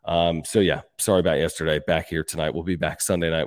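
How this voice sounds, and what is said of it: Sick-sounding voice. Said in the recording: “I was under the weather. You can probably hear it in my voice.”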